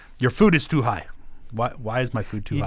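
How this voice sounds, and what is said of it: Imitated accent, deeper tone. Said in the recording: “He's doing Sam's impression ... How my accent is not racist? ... it's deeper ... there's a deeper tone to it. There's a respectful wisdom to it.”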